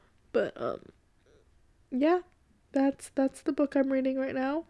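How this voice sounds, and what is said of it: Usual voice. Nothing is said of it.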